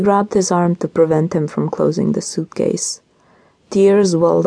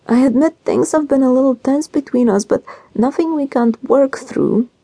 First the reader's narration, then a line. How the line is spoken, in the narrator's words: she pleaded